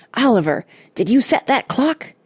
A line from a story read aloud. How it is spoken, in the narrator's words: hissed Cuffy